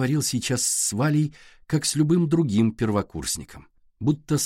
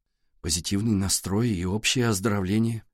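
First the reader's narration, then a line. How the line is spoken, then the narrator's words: Muttered. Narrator (Russian): пробормотал Валя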